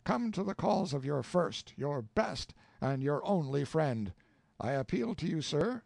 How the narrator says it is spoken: he cried

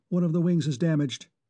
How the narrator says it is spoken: she said quickly

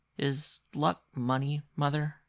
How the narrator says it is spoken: He asked rather timidly

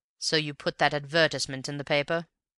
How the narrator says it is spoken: said Raffles, in the dry tones he had adopted throughout the interview

